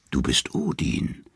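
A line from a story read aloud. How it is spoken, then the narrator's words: Three women whispering. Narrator (German): flüstern die drei Nornen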